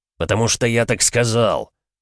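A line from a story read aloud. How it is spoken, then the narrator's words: Barked. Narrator (Russian): рявкнул Григор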